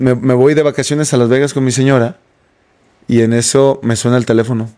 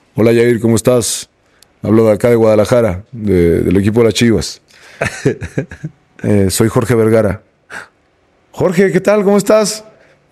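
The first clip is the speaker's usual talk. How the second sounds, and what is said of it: Imitates another person's voice. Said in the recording (Spanish): “A ver si puedo hacer la voz.”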